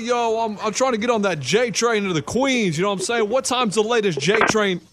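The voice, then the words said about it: Put-on New York accent. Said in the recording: “what's that accent? ... That's about New York.”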